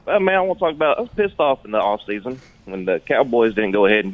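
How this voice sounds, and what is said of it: Natural regional accent. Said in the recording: “that accent is awesome ... Natural. Just born with it”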